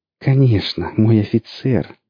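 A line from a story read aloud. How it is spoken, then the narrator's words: Purring. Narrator (Russian): промурлыкала она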